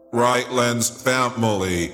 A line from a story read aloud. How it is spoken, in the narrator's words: came the booming robotic voice from below, words clumsily conjoined, rendering the intonation unnatural, discomforting